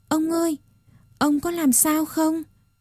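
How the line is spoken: Flustered anxious question. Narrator (Vietnamese): Một con búp bê hỏi rối rít

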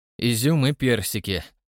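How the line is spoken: Grumpy grumble. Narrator (Russian): сварливо пробурчал Макфайв

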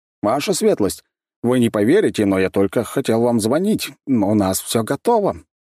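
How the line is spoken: Cheerful report. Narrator (Russian): бодро сообщил ученый

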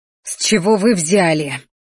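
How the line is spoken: Growling, barely restrained. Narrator (Russian): зарычала я, едва сдерживаясь

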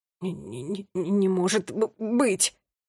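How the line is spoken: Babbling. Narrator (Russian): пролепетал

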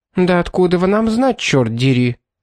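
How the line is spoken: Spiteful toothless woman. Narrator (Russian): злобно ответила беззубая женщина

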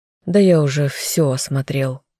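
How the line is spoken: Sighing. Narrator (Russian): вздохнул следователь

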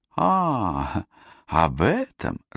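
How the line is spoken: Laughing. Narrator (Russian): рассмеялась Розалинда

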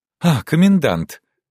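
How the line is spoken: Charming smiling exclamation. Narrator (Russian): воскликнула она с самой очаровательной улыбкой

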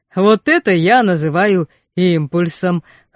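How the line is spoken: Chuckling. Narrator (Russian): хохотнул Вархар

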